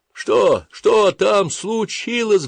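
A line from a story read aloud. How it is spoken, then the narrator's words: Shrieking over loud roar. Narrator (Russian): взвизгнул я, стараясь перекрыть оглушительный рев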